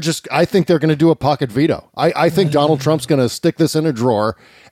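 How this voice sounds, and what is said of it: Usual voice. Nothing is said of it.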